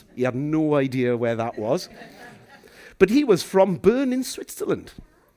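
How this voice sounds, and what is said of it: Welsh accent. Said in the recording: “he noticed my accent ... I'm from the suburban capital of a place called Llandeilo in West Wales”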